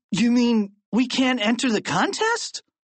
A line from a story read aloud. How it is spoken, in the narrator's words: asked Harold